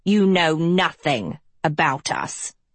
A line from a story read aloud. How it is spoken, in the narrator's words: she snarled